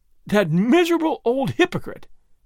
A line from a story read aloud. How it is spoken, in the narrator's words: he cried, half angry and half laughing